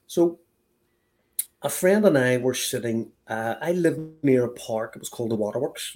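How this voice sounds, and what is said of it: Belfast accent. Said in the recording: “I have a Belfast accent.”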